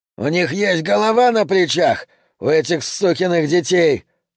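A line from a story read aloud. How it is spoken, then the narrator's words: Yelling over engine roar. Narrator (Russian): орал Юджин, стараясь перекричать яростный гул мотора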